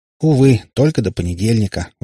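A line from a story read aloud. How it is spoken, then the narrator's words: Sigh. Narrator (Russian): вздохнул Котов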